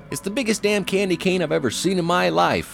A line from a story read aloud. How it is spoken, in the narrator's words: I yelled to someone